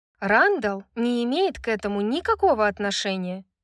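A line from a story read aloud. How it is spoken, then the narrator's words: Dry reply. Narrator (Russian): сухо ответила Брайс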